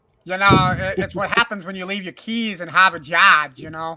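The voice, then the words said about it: Poor Boston accent. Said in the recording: “why do you sound like you just got kicked out of a Boston bar? ... Sorry, poor Boston accent. ... I didn't know I was doing Boston today”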